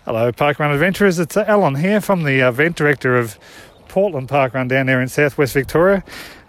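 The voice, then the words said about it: Puffing, out of breath. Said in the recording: “as you can hear by my voice getting all puffy”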